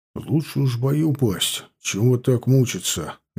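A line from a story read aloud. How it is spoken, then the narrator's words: Dull, muffled voice. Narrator (Russian): глухо проговорил Осип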